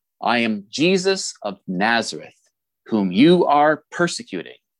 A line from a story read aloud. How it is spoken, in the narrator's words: replied